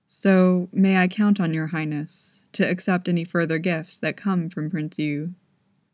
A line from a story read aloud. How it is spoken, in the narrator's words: Mei Chengsu asked